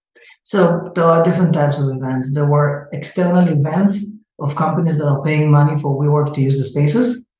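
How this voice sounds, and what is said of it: Israeli-accented English. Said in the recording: “I have an accent. I'm originally from Israel, but I live in the state for 20 something years, but I still didn't lose the accent.”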